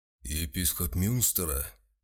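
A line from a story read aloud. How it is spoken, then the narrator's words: Muffled question. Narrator (Russian): глухо спросил палач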